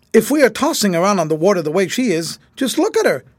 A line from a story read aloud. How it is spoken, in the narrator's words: he added excitedly